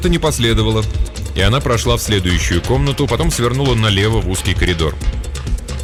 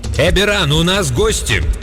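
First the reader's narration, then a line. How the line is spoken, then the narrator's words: Unnaturally loud woman's shout. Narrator (Russian): Голос женщины прозвучал неестественно громко, когда она крикнула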